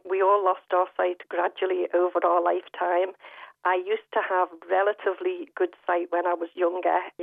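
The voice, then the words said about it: Liverpool accent. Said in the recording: “I am originally from Liverpool, as you may know from the accent”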